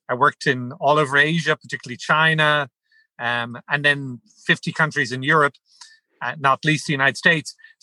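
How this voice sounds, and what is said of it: Irish accent. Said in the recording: “he had me work with him in Ireland, as you could tell from my accent.”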